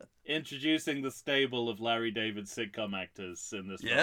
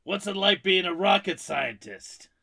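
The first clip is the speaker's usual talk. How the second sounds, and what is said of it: Raspy, high-pitched impression of another person. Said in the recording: “my impersonation probably didn't tip you either way. He's because he's really difficult to do because he's raspy, but high pitched ... he kind of sounded like your Harrison Ford ... It's deceptively hard to do a Jeff Garland impression”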